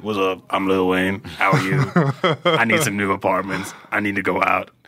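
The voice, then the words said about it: Exaggerated very deep character voice. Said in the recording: “I gave him the deepest voice possible”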